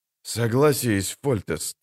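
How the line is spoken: Grumbled. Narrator (Russian): буркнул Хенсельд

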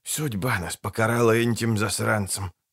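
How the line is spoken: Mumbled. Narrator (Russian): пробормотал один

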